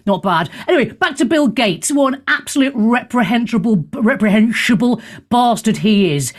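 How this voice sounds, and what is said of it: Usual voice. Nothing is said of it.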